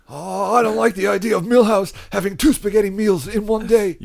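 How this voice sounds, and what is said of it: Impression of Milhouse's dad. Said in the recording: “I could do a good impression ... Milhouse's dad ... You kind of lost it with spaghetti”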